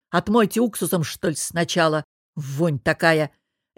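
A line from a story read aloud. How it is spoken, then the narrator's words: Barked. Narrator (Russian): рявкнул помощник Шогеля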